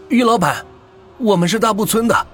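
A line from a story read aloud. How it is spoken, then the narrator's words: Anxious man. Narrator (Chinese): 一个男人的声音焦急的说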